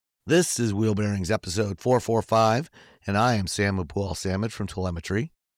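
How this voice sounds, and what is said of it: Sick, grumbly voice. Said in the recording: “poor ... still sounds sick ... My voice is still a little screwed up ... He's still got that grumbly thing.”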